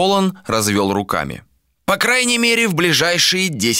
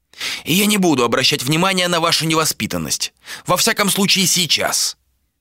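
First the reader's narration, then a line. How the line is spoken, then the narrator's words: Sharp. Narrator (Russian): резко сказал Толан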